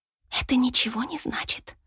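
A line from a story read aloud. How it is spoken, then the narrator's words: Whisper. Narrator (Russian): прошептала она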